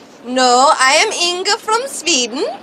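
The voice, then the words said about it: Put-on Swedish accent. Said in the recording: “Jamie Lee Curtis had no idea how to do an Austrian accent. She could only do a Swedish accent.”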